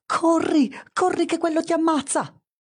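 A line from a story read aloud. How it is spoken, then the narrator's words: Sudden inner scream. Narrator (Italian): nella testa della lepre, della marmotta, del topo e della pecora c'è una voce che improvvisamente urla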